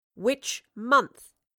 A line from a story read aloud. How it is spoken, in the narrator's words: she repeated sternly